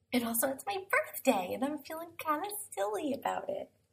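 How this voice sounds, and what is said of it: Quiet, soft radio-host voice. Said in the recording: “I'm going to be using my NPR voice, nice and quiet”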